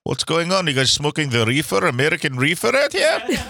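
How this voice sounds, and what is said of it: Put-on Russian accent. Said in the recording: “the old guy with a Russian accent”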